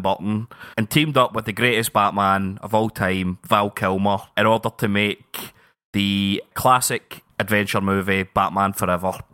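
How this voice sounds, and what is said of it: Sarcastic delivery. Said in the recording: “I get the feeling you're being sarcastic there”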